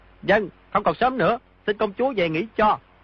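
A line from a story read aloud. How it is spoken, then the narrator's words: Raised voice. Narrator (Vietnamese): Di Tiểu Bảo cao giọng nói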